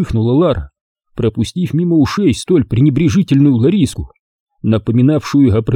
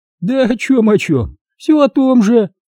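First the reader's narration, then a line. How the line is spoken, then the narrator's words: Laughing woman. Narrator (Russian): рассмеялась первая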